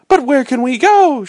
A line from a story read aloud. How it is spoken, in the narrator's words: cried in terror